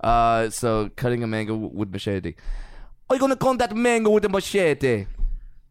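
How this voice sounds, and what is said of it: Bad Jamaican accent sounding Irish-Scottish. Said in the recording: “oh, I was going to do an accent ... Irish. It was immediate. I heard Irish. ... is terrible at accents. ... Dude, Irish? ... Irish and Scottish. Dude, pick a fucking part of Western Europe.”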